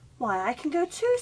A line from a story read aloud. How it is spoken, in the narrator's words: Cinderella cried